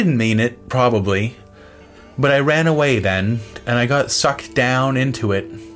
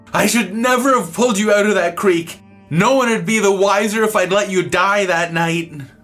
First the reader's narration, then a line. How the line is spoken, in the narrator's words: he was yelling and blubbering mad and sad, and he screamed at me